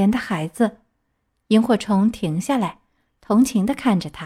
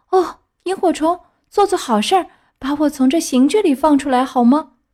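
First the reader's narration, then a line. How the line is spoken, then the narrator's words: Faint weak plea. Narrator (Chinese): 木偶眼看就要昏过去了，对他说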